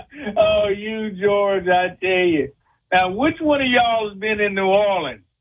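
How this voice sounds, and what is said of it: Louisiana Southern accent. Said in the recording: “I hear that accent, y'all. I hear it.”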